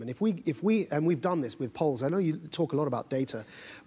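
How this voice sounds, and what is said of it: British accent. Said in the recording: “I'm clearly, by my accent, somebody from the United Kingdom.”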